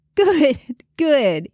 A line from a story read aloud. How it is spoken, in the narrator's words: he laughed